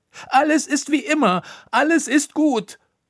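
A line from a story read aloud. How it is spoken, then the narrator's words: Shouted. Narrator (German): schrie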